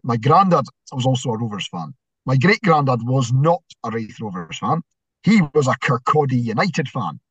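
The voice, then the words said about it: Scottish Inverness accent. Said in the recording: “as you can probably tell by my accent, I am categorically not from Fife. So, I was born in Inverness.”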